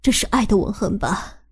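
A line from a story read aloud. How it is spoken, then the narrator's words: Happy, pleased. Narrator (Chinese): 他笑了笑……高兴地说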